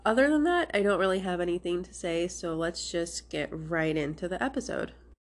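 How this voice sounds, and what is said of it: Slightly sick, congested voice. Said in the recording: “I sound sick. I do have a slight cold ... I am trying not to sound too sick”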